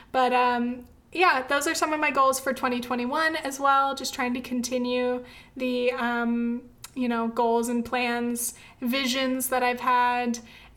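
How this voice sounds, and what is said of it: Hoarse, nearly lost voice. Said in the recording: “my voice is almost gone”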